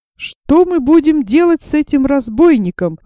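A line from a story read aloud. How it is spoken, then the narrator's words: Pleading. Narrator (Russian): взмолился я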